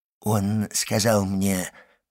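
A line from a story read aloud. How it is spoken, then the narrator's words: Muttering. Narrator (Russian): пробормотал приезжий из Лукки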